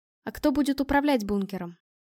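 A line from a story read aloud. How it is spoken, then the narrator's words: Calm question. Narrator (Russian): спокойно спросила я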